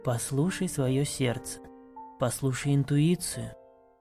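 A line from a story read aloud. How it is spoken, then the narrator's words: Soft, gentle. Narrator (Russian): мягко сказала Элитарина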